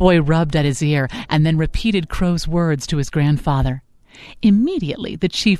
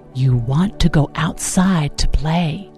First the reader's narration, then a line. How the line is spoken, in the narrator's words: whispered